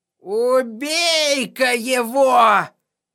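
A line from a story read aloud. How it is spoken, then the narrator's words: Ragged man hissing from corner. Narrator (Russian): прошипел из угла какой-то грязный оборванец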